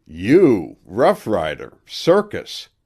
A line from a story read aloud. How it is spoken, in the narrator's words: Jack exclaimed